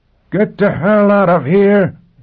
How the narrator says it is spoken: Quat roared

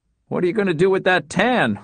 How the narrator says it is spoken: Wes asked between laughs

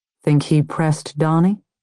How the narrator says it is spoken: Dee Dee asked

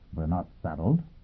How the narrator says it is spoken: Yang Yovel said quietly

